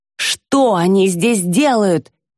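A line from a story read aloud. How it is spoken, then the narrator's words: Screaming. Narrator (Russian): вопит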